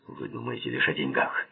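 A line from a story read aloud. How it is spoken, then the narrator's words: Rude reply. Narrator (Russian): грубо ответил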